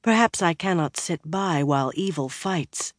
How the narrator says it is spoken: Birgitta said quietly

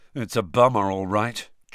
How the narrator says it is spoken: George was saying gloomily to Fred

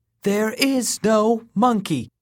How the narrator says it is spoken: he proclaimed loudly

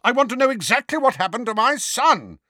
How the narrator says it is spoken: roared Uncle Vernon

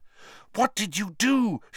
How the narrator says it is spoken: she said fiercely

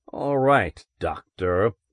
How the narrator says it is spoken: Helmar said coldly

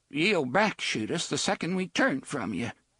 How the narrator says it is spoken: Jeeves said in a trembling voice

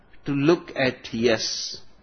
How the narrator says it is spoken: replied the astronaut

